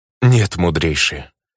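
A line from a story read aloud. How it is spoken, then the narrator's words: Sorrowful sigh. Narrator (Russian): сокрушенно вздохнул предсказатель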